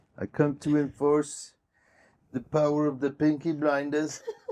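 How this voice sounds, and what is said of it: Peaky Blinders character voice impersonation. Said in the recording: “That's my best impersonation... It's perfect.”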